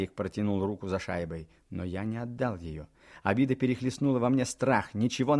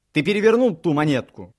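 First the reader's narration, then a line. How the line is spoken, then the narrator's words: Shouted. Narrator (Russian): крикнул я ему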